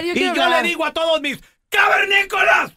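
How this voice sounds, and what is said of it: Shouting loudly. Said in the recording (Spanish): “No grites tanto”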